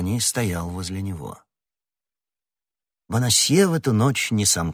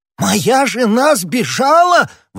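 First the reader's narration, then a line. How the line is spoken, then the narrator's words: Exclaimed. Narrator (Russian): воскликнул Бонасье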